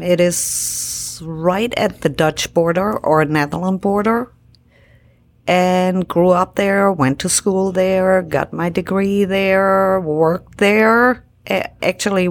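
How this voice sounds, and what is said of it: Non-American foreign accent. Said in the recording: “I notice you have an accent.”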